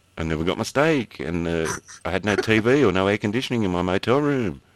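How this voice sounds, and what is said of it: Australian accent, Valley girl tone. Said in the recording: “I'm putting on the Australian accent now ... Southern Australian ... very Aussie Valley girl”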